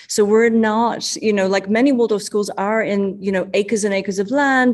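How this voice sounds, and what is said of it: Strange-sounding non-local accent. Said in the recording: “despite my, you know, strange sounding accent, we are in Chicago”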